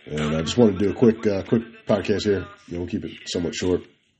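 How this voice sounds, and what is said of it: Husky voice from a cold. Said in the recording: “my voice sounds extra sexy, because I got a little bit of a cold.”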